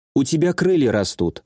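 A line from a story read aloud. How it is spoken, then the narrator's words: Calm remark. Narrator (Russian): спокойно бросила Шарлотта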